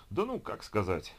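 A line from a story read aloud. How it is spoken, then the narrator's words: Sigh. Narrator (Russian): вздохнул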